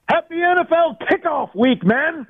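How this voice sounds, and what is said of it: Excited shouting voice. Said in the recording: “Sorry to be shouting in your ears, but I'm a little excited, if you can't tell. ... I can hear it in your voice.”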